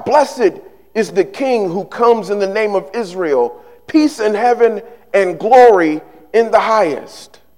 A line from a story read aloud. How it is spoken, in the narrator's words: They begin to shout